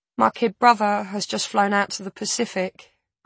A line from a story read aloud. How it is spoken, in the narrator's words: Brooke says